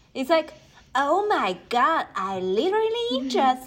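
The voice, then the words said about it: Exaggerated Valley Girl accent. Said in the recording (Chinese): “Valley Girl 指的是这边的这个 San Fernando Valley，它这种口音给人的感觉是一种非常肤浅的女生的傻白甜的感觉 ... 你可以学一句吗？ ... 就是很有点浮夸，然后常用 like，然后以疑问句来结尾的那种感觉”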